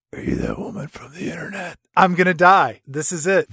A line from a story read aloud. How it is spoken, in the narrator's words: this creep with a terrible sunburn get up in your ear and just whisper